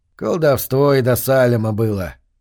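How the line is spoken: Grumbling. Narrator (Russian): проворчал молчавший до того Аберон Торп

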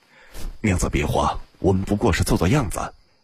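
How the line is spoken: Whispering in ear. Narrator (Chinese): 附耳低声道

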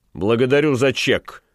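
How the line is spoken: Rough. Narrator (Russian): грубо сказал Ван Конат

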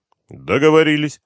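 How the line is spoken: Cold reply. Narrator (Russian): холодно ответил Дронго

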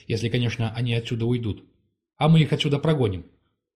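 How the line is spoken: Calm lord. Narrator (Russian): спокойно сказал лорд-хранитель

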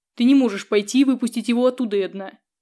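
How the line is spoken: Firm, categorical growl. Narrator (Russian): Категорично рыкнул он

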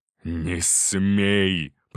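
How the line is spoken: Growl. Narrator (Russian): прорычал Артур

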